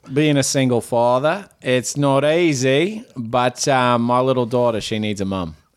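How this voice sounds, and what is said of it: Put-on Australian accent. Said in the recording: “Now that I hear his accent ... just remember to read this in the accent”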